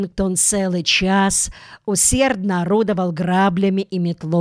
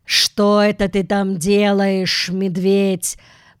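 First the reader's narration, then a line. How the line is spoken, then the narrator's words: Grumbling. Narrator (Russian): проворчал мистер Карри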